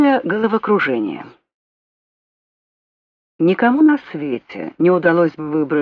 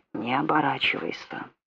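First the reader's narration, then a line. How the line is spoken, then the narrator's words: Scorching whisper in ear. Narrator (Russian): испепеляющий шепот прямо в ухо Филариона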